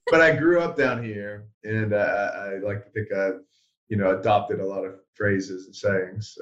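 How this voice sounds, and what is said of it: Mixed accent with Carolina southern tinge. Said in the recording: “I feel like I hear it in the voice too. Like it, it, it has like a Carolina thing to it ... my accent is a bit muddled ... mine is very confused”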